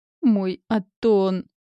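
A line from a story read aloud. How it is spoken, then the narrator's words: Moan. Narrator (Russian): простонал Рэй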